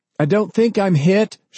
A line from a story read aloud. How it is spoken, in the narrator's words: she cried